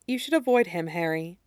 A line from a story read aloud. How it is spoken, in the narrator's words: continued quietly